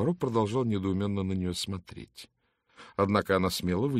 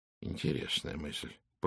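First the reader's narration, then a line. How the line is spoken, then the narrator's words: Mutter. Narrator (Russian): пробормотал Пуаро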